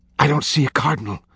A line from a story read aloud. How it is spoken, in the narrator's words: Vittoria whispered